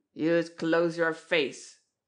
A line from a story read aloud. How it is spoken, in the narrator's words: snapped Twisty Munn